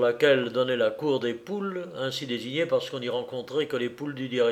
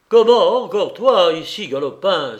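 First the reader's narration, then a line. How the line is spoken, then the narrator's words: Guard exclaiming. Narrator (French): s'écria le gardien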